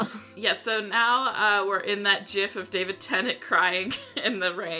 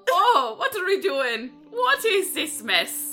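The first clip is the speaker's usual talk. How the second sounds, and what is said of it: Confident put-on Irish accent. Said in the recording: “I'll do an Irish one ... I like that you're confident in your Irish. You were so confident in that one”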